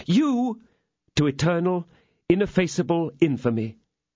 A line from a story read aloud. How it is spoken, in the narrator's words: I exclaimed